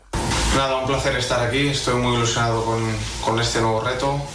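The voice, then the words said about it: Spanish with an odd Portuguese accent. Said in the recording (Spanish): “acento portugués ... un portugués extraño, ¿no? Más gallego que portugués”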